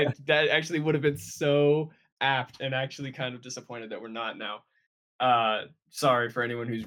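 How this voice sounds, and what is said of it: Usual voice. Nothing is said of it.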